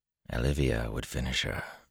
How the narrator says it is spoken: Luce Theron muttered

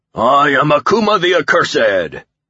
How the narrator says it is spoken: the figure bellowed

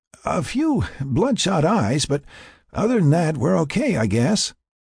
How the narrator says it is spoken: Tony answered weakly

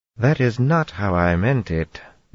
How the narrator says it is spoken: Dira said dryly

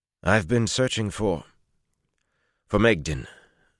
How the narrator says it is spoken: Tallinvor said roughly

